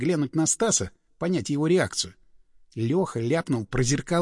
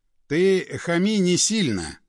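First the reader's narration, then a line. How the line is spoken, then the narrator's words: Sigh. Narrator (Russian): вздохнул напарник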